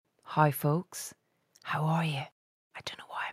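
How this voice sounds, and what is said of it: Whispering. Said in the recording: “I'm whispering. Actually, I do know why I'm whispering.”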